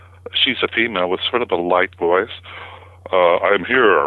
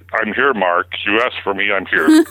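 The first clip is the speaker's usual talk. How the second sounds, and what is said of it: Very deep voice. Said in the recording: “in his very deep voice”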